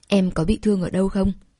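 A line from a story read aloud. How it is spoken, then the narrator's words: Low gentle voice. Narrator (Vietnamese): Đường Vực hạ giọng nói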